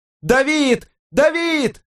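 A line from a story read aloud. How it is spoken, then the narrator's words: Yell. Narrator (Russian): Заорала она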